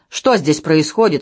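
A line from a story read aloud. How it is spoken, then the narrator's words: Stern question. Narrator (Russian): строго спрашиваю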